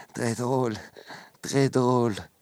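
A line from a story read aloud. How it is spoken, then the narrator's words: Amused murmur. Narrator (French): murmure-t-il, croyant à une plaisanterie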